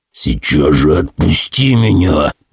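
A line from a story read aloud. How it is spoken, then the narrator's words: Growling. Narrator (Russian): прорычал я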